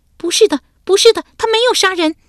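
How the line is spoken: Frantic scream. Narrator (Chinese): 艾雪莹尖叫一声，发狂似的叫道

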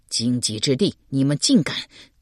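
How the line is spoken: Shocked and angry. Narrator (Chinese): 邓毅又惊又怒道

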